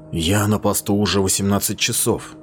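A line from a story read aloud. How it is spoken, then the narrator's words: Quiet. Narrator (Russian): тихо сказал он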